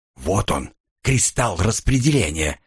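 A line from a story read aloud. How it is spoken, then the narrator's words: Whisper in ear. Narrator (Russian): шепнул мне на ухо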